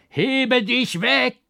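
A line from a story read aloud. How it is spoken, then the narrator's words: Frantic shout. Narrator (German): schrie außer mir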